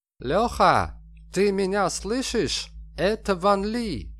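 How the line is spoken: Accented shout over phone. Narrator (Russian): С китайским акцентом закричала трубка

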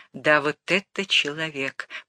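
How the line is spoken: Whispered. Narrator (Russian): прошептал

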